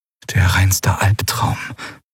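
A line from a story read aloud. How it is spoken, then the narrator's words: Whispered. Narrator (German): flüsterte Lien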